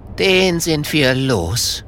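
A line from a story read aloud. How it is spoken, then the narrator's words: Relieved sigh. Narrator (German): seufzt Kokosnuss erleichtert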